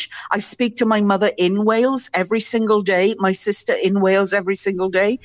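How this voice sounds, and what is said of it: Welsh accent, slightly softened. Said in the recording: “One could probably guess by your accent that you're not a native Canadian... the accent's never going to go away... some of the peaks and valleys have been rounded off just a little, it's still definitely a Welsh accent... it's definitely a very unique accent. It's easy to place.”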